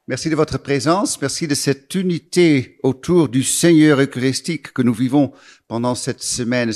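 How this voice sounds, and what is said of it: Slight Dutch accent in French. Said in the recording (French): “un tout petit accent, ça c'est vrai, l'accent il est là, parce que je suis hollandais d'origine”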